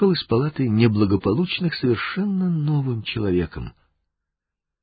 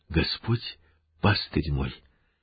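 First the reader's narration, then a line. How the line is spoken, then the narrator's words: Smiling whisper in ear. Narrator (Russian): Олег улыбаясь, шепнул ему на ухо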